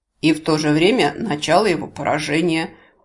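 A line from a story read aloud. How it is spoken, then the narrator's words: Snorting objection. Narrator (Russian): хмыкнув, возразил Гворий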